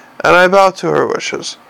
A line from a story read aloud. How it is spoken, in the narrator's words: said Lord Ventnor smoothly